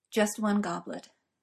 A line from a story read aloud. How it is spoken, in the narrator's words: Merlin says, quietly now, and with nothing of his earlier casualness